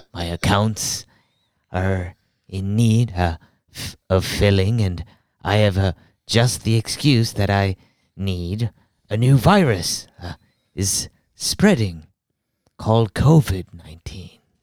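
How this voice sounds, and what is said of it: Throaty cartoon villain impression. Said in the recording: “Your impression's kind of like Mr. Burns there. ... it's a lot more throatier. I need to get a little bit breathier.”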